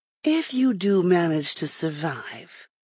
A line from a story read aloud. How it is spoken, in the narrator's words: Lindet said quietly